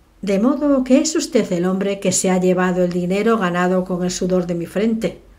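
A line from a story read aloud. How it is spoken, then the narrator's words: Jovial. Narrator (Spanish): le dijo con tono jovial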